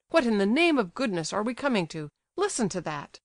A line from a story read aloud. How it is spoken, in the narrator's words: he cried